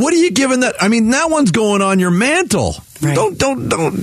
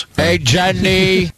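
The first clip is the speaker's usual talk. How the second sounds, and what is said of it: Imitates a film character's voice. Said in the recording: “Is that a Forrest Gump impression?”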